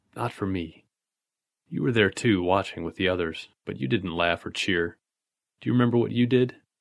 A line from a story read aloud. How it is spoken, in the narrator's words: lower, almost a whisper